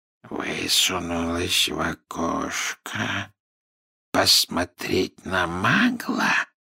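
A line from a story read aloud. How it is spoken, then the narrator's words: Quiet questioning. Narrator (Russian): тихо переспросил Мракс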